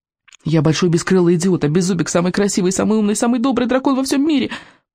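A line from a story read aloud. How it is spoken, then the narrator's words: Rapid patter. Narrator (Russian): протараторил Икинг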